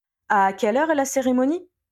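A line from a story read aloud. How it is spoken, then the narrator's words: Plain question. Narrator (French): demanda-t-il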